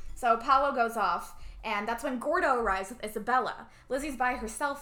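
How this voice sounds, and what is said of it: Usual voice. Nothing is said of it.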